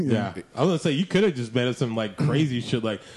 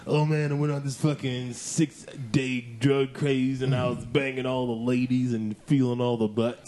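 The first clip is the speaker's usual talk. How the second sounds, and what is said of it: Imitates another person's voice. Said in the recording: “my impression of BK on drugs”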